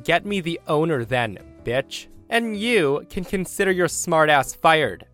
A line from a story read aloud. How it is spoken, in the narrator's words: The guy's face went bright red and he shouts